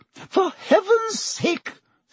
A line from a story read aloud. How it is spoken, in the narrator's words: said Madame Pomfrey hysterically